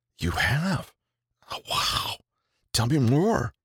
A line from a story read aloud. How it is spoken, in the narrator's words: supportive and active whisper back